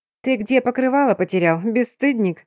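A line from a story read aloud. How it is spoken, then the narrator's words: Laughing. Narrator (Russian): рассмеялась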